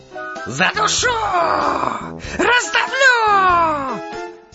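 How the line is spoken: Furious scream. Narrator (Russian): Заорал в бешенстве паук

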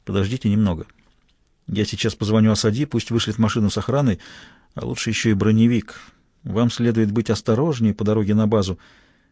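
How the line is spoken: Whispered in ear. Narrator (Russian): Майор прошептал на ухо

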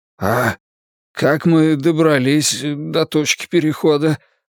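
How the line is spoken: Hoarse croak. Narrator (Russian): прохрипел я, проглотив еще пару шариков воды

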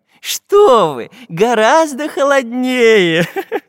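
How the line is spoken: Professor laughing. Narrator (Russian): засмеялся профессор

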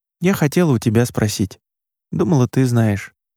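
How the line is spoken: Sad sighing admission. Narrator (Russian): Маша грустно вздохнула и призналась

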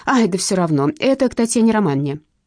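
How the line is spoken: Shouted while running. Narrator (Russian): крикнула она на бегу

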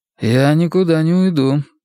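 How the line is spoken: Calm statement. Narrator (Russian): спокойно сообщает Марко

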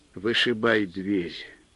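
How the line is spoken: Timid and tired. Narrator (Russian): Робко и устало посоветовал снабженец

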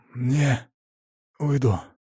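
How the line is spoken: Hoarse, dry-throated. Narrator (Russian): хрипло от пересохшего горла заявил он

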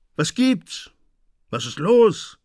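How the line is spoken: Angry shout. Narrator (German): rief man ihm wütend zu

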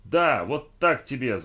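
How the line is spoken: Yelled after someone. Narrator (Russian): заорал я вдогонку и, не зная, что еще крикнуть, добавил

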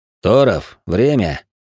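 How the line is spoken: Deceptively calm, curt. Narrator (Russian): вновь обманчиво спокойно бросил легат

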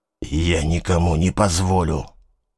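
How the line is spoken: Threatening mutter. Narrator (Russian): забормотал угрожающе

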